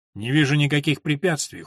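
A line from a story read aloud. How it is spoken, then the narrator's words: Cold. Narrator (Russian): холодно сказал он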